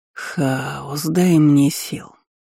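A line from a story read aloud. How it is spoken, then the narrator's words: Sigh. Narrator (Russian): вздохнул декан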